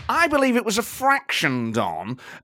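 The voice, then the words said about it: Patronising football manager impression. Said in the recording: “not my best impression, but you do get a sense of slightly patronising him”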